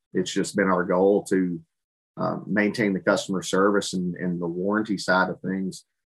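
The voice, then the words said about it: Texas American accent. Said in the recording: “you can tell by ... accent that their American headquarters is in Texas. You can't hide that at all”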